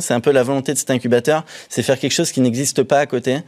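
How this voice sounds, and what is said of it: Slight Saint-Étienne French accent. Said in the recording (French): “il y a une petite pointe d'accent ... très spécifique ... pointe d'accent stéphanois”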